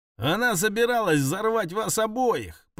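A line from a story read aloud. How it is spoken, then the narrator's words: Shouting. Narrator (Russian): прокричала Элли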